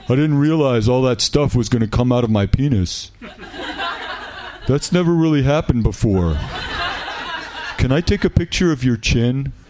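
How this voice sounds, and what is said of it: Imitated frat boy voice. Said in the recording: “in the voice of a frat boy ... my incredibly good imitation of a frat boy”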